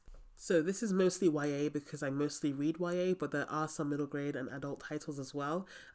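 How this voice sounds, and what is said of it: Sick, strained voice. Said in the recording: “I want to apologize for how awful my voice sounds. ... I got a really, really bad case of tonsillitis and then pneumonia”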